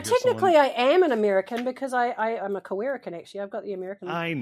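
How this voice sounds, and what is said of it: Usual voice. Nothing is said of it.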